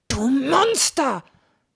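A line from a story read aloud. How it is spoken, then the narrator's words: Shouting at father. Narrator (German): schreit Bogi seinen Vater an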